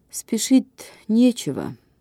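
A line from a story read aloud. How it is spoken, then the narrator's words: Sighing mother. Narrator (Russian): сказала мать и вздохнула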